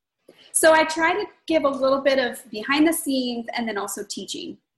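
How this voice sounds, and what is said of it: Hoarse, froggy voice. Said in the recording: “my voice is shot because I just recorded 3 videos with a cold. which I'm still getting over in case people hear my froggy voice”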